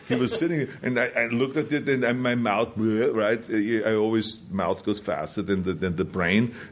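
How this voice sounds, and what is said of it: Speaks with a foreign accent. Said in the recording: “you have an accent”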